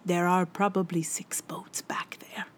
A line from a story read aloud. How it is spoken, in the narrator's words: Eamon leaned down to whisper to me